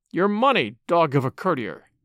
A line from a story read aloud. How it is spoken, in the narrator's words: they muttered fiercely